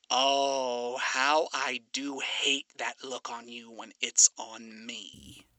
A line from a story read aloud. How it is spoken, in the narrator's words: Alistair muttered